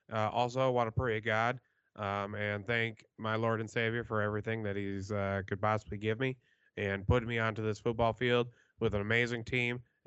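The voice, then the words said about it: Imitates a backup quarterback's voice. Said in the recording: “my backup QB impersonation”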